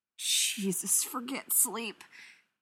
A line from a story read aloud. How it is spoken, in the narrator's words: Stiles moans